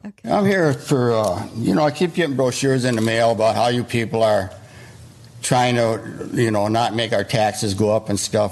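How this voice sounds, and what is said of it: Midwestern American accent. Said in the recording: “Somewhere in the Midwest. You can tell by his accent. I think in Illinois, in like Schaumburg or something like that.”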